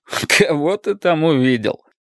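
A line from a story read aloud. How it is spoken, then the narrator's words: Laughing question. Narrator (Russian): спросил, смеясь, Беннет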